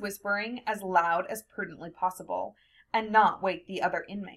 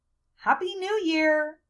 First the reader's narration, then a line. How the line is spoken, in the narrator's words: said in a louder voice